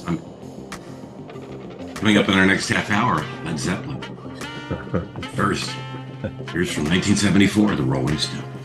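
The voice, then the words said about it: Hoarse classic rock DJ voice. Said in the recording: “I'm going to have the classic rock DJ voice today. ... The sore throat.”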